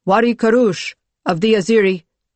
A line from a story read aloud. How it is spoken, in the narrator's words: one of the envoys spoke loudly